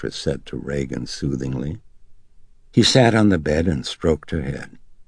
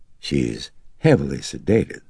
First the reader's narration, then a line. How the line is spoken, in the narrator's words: the psychiatrist said gently